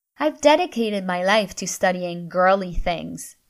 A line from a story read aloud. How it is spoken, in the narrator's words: she snapped